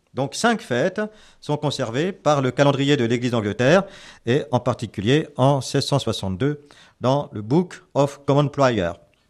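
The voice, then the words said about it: French-accented English pronunciation. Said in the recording (French): “mon accent anglais inimitable”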